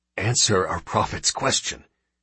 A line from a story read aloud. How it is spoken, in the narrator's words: he hissed at last